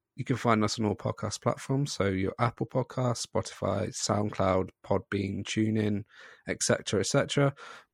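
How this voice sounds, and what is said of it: Hoarse, throaty voice. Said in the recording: “I've got a frog in my throat.”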